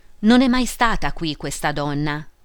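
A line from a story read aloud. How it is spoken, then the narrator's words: Plain. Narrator (Italian): disse Emilio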